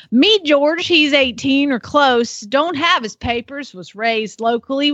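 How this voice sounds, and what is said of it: Put-on Southern accent. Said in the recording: “So I'm cleared to do a southern accent in this one because it just screams for it.”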